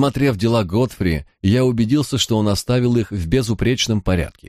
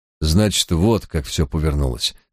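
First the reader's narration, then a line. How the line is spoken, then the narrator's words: Sighing mutter. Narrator (Russian): со вздохом пробормотал я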